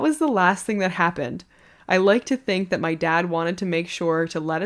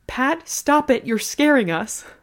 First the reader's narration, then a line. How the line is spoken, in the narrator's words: Gram yelled